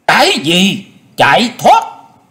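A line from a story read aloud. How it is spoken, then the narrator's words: Furious, coughing. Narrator (Vietnamese): Chu Nguyên Chương rất là tức giận, tức giận dâng lên ở cổ họng không ngớt ho khan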